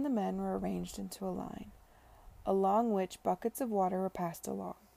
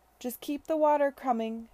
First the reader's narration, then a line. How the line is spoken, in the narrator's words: Charlotte cried to the men